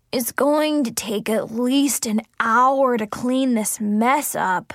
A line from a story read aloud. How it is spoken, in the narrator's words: Zoe groaned